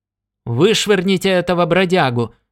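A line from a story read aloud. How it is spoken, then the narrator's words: Shouted. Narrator (Russian): закричал бармен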